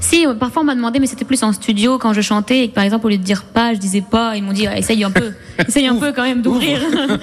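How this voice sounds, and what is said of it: Regional northern French accent. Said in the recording (French): “C'est plus mon accent qui reste, genre les a qui deviennent des o ... votre accent ... les gens l'entendent”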